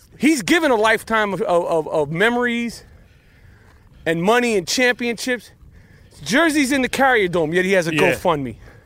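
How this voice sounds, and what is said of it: Out of breath. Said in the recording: “I'm a little out of breath”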